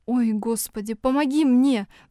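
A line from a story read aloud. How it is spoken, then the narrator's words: Silent inner plea. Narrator (Russian): взмолилась про себя Оля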